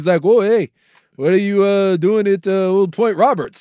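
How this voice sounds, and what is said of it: Exaggerated Canadian accent. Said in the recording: “the most Canadian accent of all time”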